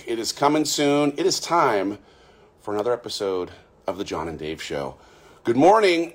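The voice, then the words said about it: Strained, fading voice. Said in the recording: “I'm losing my voice after a lot of interviewing ... Where has my voice gone?”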